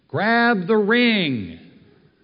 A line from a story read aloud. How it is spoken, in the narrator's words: he yells down to you